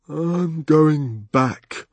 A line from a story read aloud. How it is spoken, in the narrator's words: he announced sleepily